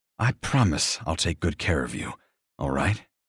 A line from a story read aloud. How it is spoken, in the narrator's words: Liv pants softly